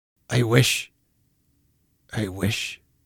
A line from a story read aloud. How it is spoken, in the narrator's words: Scrooge muttered